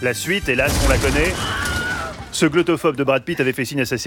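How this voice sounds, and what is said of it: Usual voice. Nothing is said of it.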